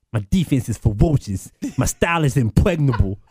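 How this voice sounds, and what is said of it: Imitates another person's voice. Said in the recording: “That's a pretty good Mike Tyson. Aaron, can you top that? Do you have a Tyson?”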